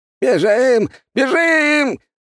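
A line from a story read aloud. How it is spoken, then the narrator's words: Old man shouting. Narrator (Russian): прокричал старик в зеленом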